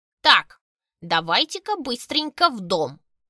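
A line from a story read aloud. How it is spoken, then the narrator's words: Elderly woman's commanding tone. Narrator (Russian): Приказным тоном произнесла пожилая женщина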